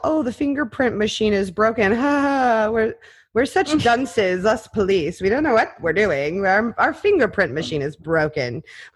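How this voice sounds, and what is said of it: Put-on dim-witted accent. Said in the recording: “like this accent you gave the Maryland police ... That's their fake I'm an idiot accent, or I want you to think I'm an idiot.”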